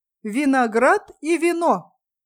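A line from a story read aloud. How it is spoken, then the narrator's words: Loud reading. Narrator (Russian): Эсти громко прочла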